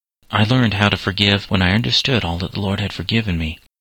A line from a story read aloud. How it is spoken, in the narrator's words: said the doctor